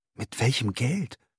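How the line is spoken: Panting. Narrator (German): keuchte er

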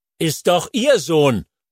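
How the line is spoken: Bellowing back. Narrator (German): brüllt Pascha zurück

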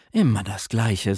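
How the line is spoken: Sigh. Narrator (German): seufzte Scheherazade

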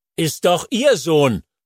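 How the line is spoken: Bellowing back. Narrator (German): brüllt Pascha zurück

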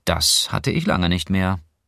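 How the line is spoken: Dry. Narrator (German): sagte Clara trocken

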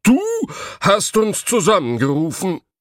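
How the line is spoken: Blacksmith calling out. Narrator (German): rief der Schmied

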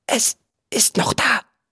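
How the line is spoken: Whispered. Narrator (German): flüsterte er

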